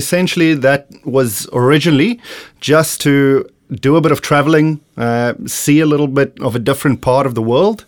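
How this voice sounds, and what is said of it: South African accent. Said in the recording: “a bit of an accent going on there ... I am from the beautiful country of South Africa”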